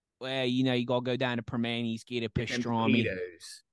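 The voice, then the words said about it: Strong Pittsburgh Yinzer accent. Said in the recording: “Yinzer accent get worse when he talks about food specifically”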